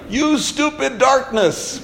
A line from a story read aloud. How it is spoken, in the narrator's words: Lucy standing out at night, looking up at the night sky and yelling